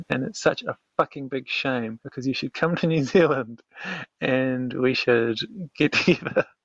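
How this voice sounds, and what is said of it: Prim, old-fashioned sounding accent. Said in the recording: “I love your accent ... you sound a little prim and proper, a little old fashioned”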